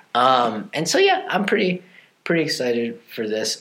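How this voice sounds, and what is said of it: Flat, unexcited tone. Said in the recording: “You can't really tell by my tone how excited you are.”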